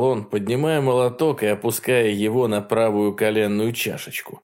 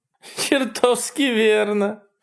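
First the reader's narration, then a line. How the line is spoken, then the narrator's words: Giggling, spitting blood. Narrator (Russian): сказала она, хихикая и выплевывая еще больше крови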